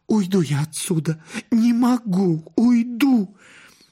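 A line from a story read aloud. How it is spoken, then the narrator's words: Sobbing whisper. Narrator (Russian): всхлипывала и шептала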